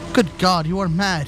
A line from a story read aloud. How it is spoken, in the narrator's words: he cried